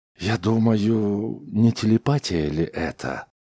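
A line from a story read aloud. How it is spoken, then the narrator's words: Soft, usual tone. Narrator (Russian): Чаунс ответил мягко, его обычный тон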